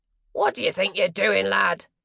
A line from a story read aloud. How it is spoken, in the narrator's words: the man on the bridge barked after her